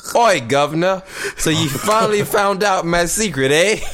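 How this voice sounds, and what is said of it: Attempted British accent, sounds Australian. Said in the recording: “This fucking Australian though ... it probably came off like Australia. I was trying to do Britain.”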